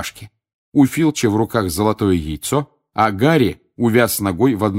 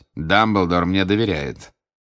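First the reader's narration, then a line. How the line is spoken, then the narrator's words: Objection through gritted teeth. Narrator (Russian): возразил Снег сквозь зубы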